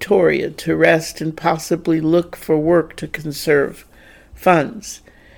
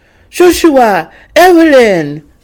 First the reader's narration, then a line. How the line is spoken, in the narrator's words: Jeremie exclaimed